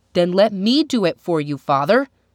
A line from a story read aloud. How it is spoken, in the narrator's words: cried Thingy